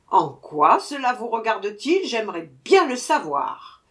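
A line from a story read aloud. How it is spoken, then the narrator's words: Growled. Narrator (French): grogna Sir Buzz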